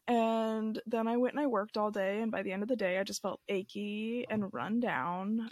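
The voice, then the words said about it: Sick, scratchy-throated voice. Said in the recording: “if you can't tell by my voice, I'm a bit sick ... a scratchy throat”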